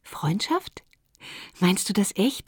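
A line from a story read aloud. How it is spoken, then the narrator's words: Plain question. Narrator (German): fragte sie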